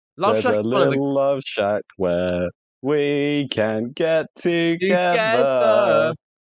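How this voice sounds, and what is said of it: Put-on northern English accent, singing. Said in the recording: “You have to do it in the northern accent though.”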